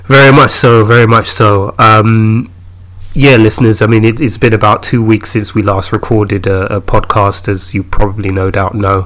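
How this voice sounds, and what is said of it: Slightly hoarse voice. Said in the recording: “if you hear my voice and it sounds a little bit hoarse, that's goddamn hay fever ... if I struggle and sound like I'm a little bit out of breath”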